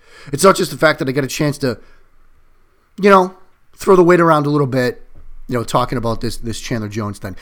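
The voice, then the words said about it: Excited, energized speaking voice. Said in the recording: “I am geeked. You can hear it in my voice. I'm very excited.”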